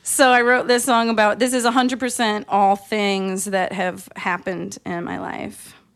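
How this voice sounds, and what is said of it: Valley girl accent. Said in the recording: “I wrote this when I was living in Los Angeles, in the Valley. That's where I got this accent. I picked it up there. It's contagious.”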